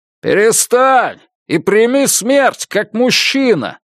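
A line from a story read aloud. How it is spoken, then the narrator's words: Shouting. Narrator (Russian): крикнул кто-то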